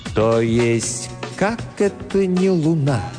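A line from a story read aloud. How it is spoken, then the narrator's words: Slow. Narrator (Russian): медленно произнес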